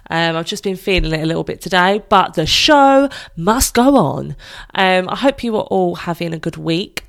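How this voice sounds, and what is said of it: Stuffy, congested voice from a cold. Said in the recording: “I have got a bit of a cold, so if I do come across a bit stuffy”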